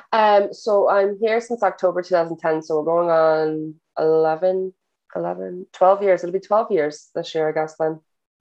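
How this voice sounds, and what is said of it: Irish accent. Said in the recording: “you definitely don't have a Jersey accent anymore. You have an Irish accent.”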